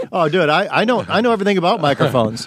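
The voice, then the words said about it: Imitates another person's voice. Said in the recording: “my impression of John Huck on podcasts”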